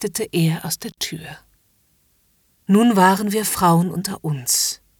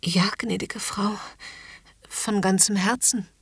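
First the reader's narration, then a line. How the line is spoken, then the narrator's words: Stammering. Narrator (German): Ich stammelte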